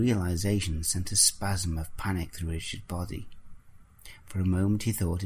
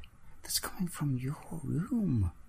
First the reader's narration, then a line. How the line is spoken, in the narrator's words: whispered